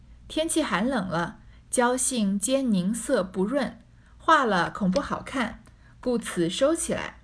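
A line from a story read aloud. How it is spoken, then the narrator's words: Laughing. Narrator (Chinese): 惜春英笑道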